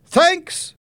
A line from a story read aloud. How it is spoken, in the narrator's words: Helen shouted